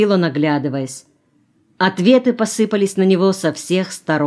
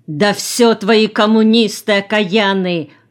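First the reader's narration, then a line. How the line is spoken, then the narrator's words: Shout. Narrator (Russian): крикнула Аннушка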